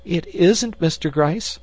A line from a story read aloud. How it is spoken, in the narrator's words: she gasped in horror